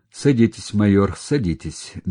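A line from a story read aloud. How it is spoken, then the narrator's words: Gently insistent. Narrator (Russian): мягко настоял на своем генерал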